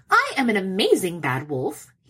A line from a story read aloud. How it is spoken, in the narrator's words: he snaps